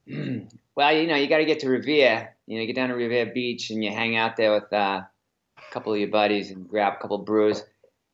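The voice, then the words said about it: Exaggerated Boston accent. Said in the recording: “Give me your best Boston accent”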